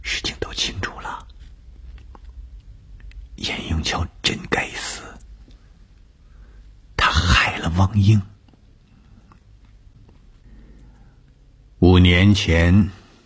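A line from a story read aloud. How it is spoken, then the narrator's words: Soft voice. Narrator (Chinese): 董峰 轻声地说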